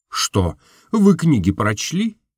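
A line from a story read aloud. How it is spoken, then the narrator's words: Embarrassed, laughing. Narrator (Russian): он покраснел, однако засмеялся, говорит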